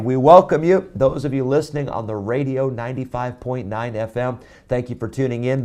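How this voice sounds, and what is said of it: Hoarse, strained voice. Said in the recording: “lost my voice,”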